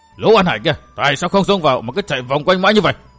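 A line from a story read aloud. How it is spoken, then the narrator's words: Old man's angry shout. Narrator (Vietnamese): Lão tức tối quát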